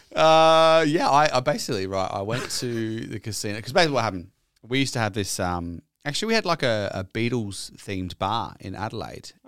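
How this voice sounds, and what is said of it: Australian accent. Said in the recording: “You're in Stockport with an Australian accent.”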